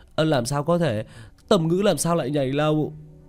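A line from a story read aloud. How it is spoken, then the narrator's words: Shocked shout into phone. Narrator (Vietnamese): Hắn sắc mặt đại biến, hướng về phía điện thoại hét lên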